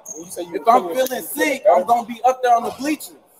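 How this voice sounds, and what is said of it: Loud, raised angry voice. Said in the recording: “Lower your voice. Lower your voice.”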